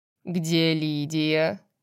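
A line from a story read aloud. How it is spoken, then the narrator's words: Sarcastic question. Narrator (Russian): язвительно спросил Полукс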